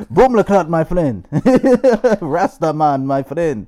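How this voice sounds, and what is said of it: Put-on Jamaican accent. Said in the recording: “I thought they got a real Jamaican in it... Everyone got the same accent.”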